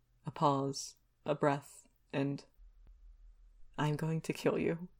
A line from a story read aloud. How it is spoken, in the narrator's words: murmurs